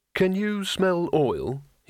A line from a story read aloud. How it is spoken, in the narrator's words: he said